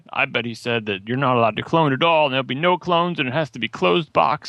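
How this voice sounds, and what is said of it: Mocking impression of a PC user. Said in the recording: “That was my PC user impression.”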